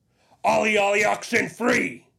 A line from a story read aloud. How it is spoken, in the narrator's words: I shouted